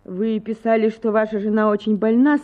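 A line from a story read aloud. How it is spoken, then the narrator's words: Plain. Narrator (Russian): сказала Анна Акимовна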